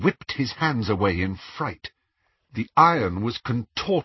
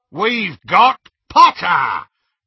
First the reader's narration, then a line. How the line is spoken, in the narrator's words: Greyback roared triumphantly